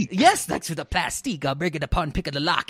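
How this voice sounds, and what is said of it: Italian-Alabama mixed accent imitation. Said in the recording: “are you doing like an Italian man from Alabama accent?”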